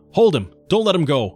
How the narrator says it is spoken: I shouted at Shorty

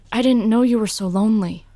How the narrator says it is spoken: said

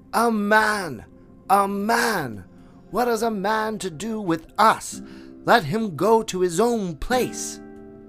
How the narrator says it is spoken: more than half of the pack yelled

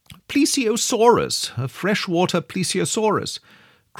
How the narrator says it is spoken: cried Summerlee

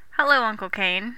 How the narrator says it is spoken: I sighed

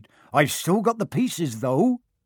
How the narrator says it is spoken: he added brightly

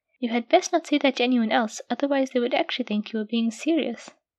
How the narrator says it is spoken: she added with a small chuckle

